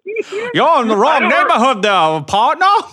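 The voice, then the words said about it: Cartoon rooster Southern drawl voice. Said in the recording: “do a Foghorn Leghorn impression ... He just sounds like a plantation owner”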